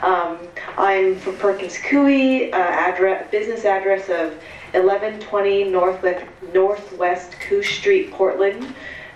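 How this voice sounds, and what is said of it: Congested voice from a cold. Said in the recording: “I have a little cold, so sorry if I sound funny.”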